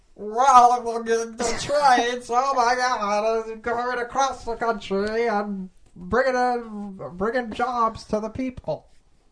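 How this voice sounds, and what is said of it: Imitates a US president's voice. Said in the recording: “funny presidential impressions ... a president impression ... Warren G. Harding”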